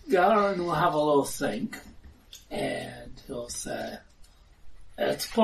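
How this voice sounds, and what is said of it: Usual voice. Nothing is said of it.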